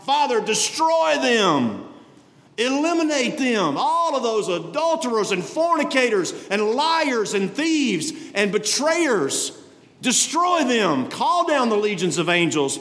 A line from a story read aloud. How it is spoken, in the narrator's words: He could have cried out